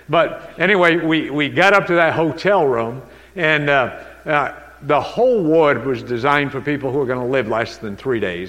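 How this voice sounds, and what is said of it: New England accent. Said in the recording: “sometimes you hear New England with me ... that New England accent”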